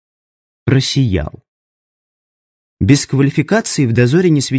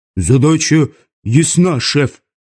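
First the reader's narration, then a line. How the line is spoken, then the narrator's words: Barked. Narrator (Russian): рявкнул Симонов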